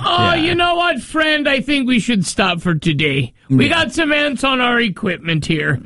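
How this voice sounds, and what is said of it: Put-on Irish-sounding accent. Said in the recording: “why are they Irish?”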